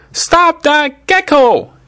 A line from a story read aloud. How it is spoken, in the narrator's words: Annie yelled